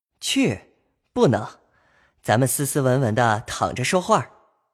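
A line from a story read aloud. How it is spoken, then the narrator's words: Laughing. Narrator (Chinese): 宝玉笑道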